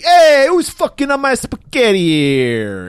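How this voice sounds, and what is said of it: Fake Italian accent. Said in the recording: “doing that fake Italian voice? Because that sounded like a griff Italian voice.”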